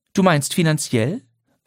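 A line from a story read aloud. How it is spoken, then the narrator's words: Calm question. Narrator (German): fragte Lydia ruhig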